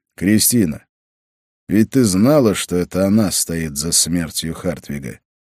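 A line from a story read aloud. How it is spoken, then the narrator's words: Sighing. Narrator (Russian): Колдунья вздохнула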